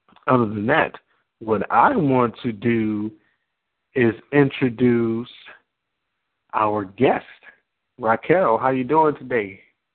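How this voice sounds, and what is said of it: Slightly hoarse voice. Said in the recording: “I'm a little hoarse from a lot of meetings today”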